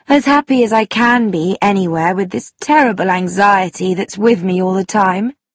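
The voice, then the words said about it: Unhappy, sad voice. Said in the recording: “in an unhappy voice”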